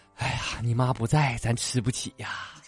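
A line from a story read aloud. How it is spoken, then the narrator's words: Father sighing. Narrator (Chinese): 爸爸叹了口气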